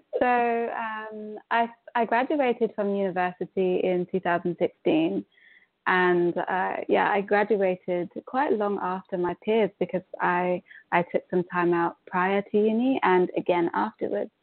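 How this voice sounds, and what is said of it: British accent. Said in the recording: “It sounds like you have more of a British accent”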